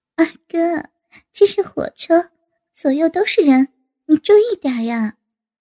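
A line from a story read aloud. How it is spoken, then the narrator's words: Laughing. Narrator (Chinese): 吴敏笑着道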